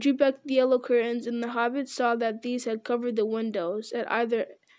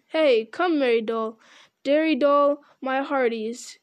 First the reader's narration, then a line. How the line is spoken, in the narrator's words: he clapped his hands and cried